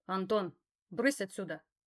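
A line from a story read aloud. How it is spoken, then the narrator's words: Icy command. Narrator (Russian): ледяным голосом распорядился Альбинос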